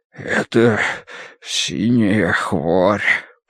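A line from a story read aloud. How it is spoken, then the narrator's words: Hoarse wheeze. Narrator (Russian): просипел он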